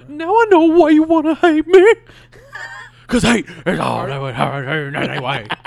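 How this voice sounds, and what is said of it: Cartoon old man character voice. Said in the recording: “Are you that old prevert from Family Guy? You do that voice?”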